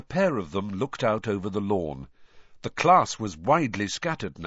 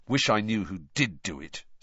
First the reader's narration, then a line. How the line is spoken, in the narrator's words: said Harry bitterly